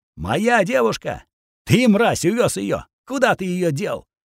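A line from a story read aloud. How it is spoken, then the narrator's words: Furious shout. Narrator (Russian): яростно прокричал Роман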